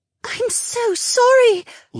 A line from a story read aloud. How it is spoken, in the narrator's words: Linnea gasped as her eyes widened